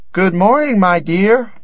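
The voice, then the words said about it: Strange disguised voice. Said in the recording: “What a strange voice you have, grandmother.”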